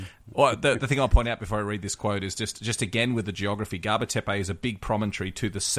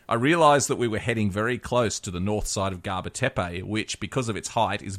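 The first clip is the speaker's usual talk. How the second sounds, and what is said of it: Put-on upper-class British accent. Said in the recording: “in your best British upper-class accent.”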